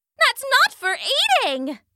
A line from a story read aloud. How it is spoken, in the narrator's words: shrieked Salandra